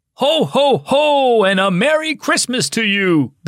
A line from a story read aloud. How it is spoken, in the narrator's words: bellowed a tall Santa